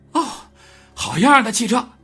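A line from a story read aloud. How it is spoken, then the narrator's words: Breathless, panting. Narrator (Chinese): 罗恩气喘吁吁的说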